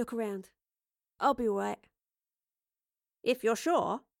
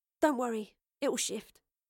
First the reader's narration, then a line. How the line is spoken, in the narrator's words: Astrid sighed